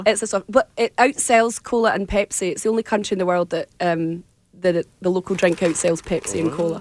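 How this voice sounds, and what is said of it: Scottish accent. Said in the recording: “your accent I can understand, but there are some people that I cannot from Scotland”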